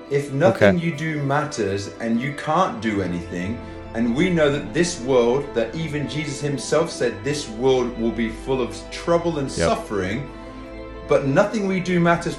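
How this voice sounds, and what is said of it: Australian accent. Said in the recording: “I love that guy's accent ... He's Australian.”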